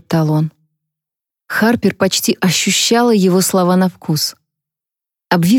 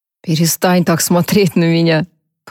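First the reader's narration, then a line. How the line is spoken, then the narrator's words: Grumbling. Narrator (Russian): проворчал он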